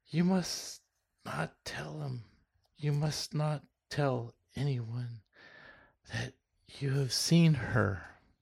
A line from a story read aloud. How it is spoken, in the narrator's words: she whispered passionately